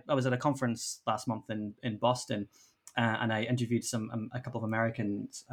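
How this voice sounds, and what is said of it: Posh Northern Irish accent. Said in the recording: “I keep getting comments about my accent ... I sound posh for Derry.”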